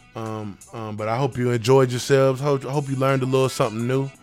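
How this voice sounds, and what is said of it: Sick, rough-sounding voice. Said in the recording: “my voice is, I'm kind of out of it ... I got a little sick, so my voice is a little out of it”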